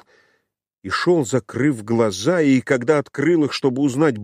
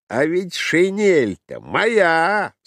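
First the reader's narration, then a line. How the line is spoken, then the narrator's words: Thunderous voice. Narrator (Russian): сказал один из них громовым голосом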